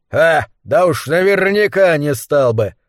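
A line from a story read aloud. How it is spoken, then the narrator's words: Robber's scoffing grunt. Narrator (Russian): хмыкнул грабитель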